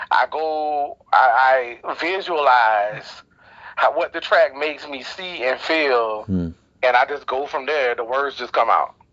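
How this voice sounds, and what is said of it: Southern US accent. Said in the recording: “you from the South, you hear your accent, obviously”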